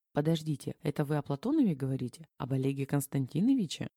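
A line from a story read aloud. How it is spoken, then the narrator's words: Quiet panicked question. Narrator (Russian): Тихо впадая в панику, переспросила Женя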